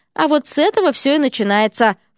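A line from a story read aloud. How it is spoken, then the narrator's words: Snorted. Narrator (Russian): фыркнул замдекана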